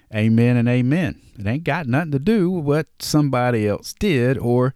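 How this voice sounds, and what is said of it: Southern drawl. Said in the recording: “that's my Southern drawl coming out”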